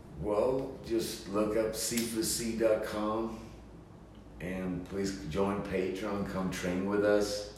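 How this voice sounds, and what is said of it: Swedish accent. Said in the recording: “With that Swedish accent, I didn't quite get that.”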